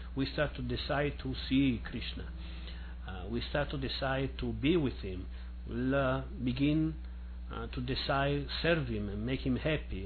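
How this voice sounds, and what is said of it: Non-native English accent. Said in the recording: “sorry for my funny accent. I'm trying to do my best with a language I don't use very much”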